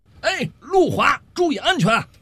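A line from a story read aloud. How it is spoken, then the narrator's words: Calling out from behind. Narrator (Chinese): 小五就在后头喊了一句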